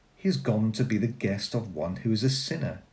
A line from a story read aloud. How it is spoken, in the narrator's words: All who saw it began to grumble and said